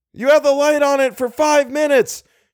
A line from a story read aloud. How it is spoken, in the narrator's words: shouted Algernon